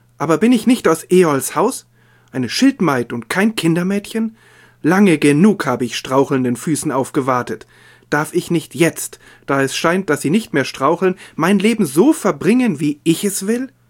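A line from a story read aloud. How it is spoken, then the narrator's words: Calling out. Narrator (German): rief sie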